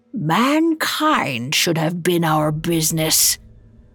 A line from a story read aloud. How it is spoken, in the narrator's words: growled